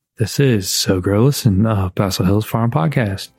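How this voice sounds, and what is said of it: Public radio announcer voice. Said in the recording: “In my NPR voice,”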